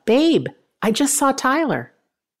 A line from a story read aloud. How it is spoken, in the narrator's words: Tony yelled out